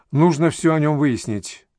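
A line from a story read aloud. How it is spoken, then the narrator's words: Sighing. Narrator (Russian): Анатолий вздохнул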